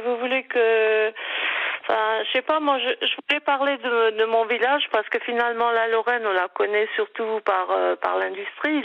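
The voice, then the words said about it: Slight Moselle (eastern French) accent. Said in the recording (French): “Non, moi c'est plutôt l'Est. C'est la Moselle ... Ça s'entend un petit peu dans votre voix. ... il paraît que j'ai l'accent.”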